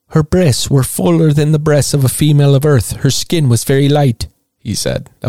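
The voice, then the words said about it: Poorly done put-on accent. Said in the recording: “That was a terrible accent.”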